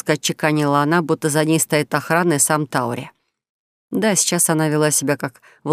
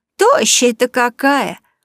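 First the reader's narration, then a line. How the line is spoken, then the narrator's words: Exclaiming kindly market woman. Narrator (Russian): воскликнула сердобольная торговка зеленью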